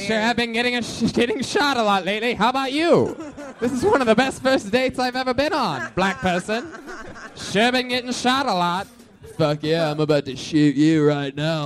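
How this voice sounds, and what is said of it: White surfer voice. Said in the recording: “White surfer voice.”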